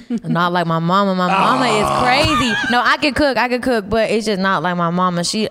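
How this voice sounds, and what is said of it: Deep Texas accent. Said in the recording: “you are from Texas, and this accent is so deep”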